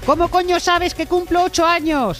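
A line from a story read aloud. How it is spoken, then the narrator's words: Paranoid shouting. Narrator (Spanish): ha gritado paranoico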